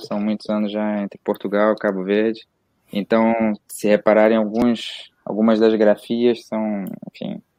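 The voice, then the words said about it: Rio Brazilian accent with Portuguese influence. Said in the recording (Portuguese): “meu sotaque já está, apesar de niteroense é, barra carioca, não é? Meu sotaque já está assim um bocado contaminado ... Quando você fala a palavra anos, que aí a gente percebe que o cara tá meio viciado já”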